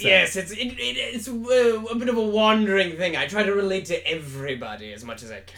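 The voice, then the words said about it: Put-on British accent. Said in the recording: “you have quite the interesting accent... So it's kind of British right now... it's a little British right now”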